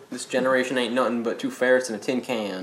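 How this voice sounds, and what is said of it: Put-on accent. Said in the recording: “I want to keep this accent going”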